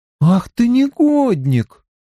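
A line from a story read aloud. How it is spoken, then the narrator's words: Hurt, drawn-out. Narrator (Russian): обиженно протянула она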